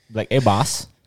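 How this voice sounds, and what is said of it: Sing-song Trinidadian accent. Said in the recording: “sing songy soca shit like Trini shit”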